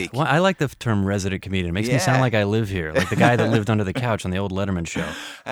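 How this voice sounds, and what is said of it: American accent. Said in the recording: “your accent. You're American”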